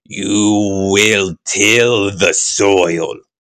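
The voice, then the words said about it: Booming, malevolent genie-like god voice. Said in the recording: “put on my god voice ... That's kind of a genie voice ... It seems pretty malevolent still.”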